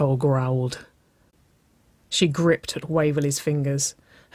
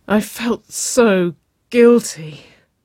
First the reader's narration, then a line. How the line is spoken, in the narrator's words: she moaned